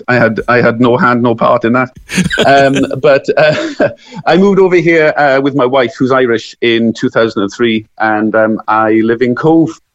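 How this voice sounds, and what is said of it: Welsh accent. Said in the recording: “that lovely Welsh accent”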